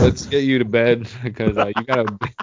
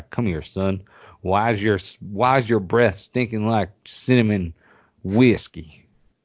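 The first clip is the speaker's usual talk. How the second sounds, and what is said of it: Put-on Southern Louisiana accent. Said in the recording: “not from Louisiana or whatever that bullshit accent was”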